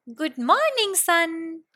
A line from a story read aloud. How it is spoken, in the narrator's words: called out